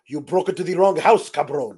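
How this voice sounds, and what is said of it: Puss in Boots cartoon cat accent. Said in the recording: “this accent is one that I do for my daughter because it's Puss in Boots from the Shrek movies ... this accent, the Antonio Banderas as a sword fighting cat, that is the accent”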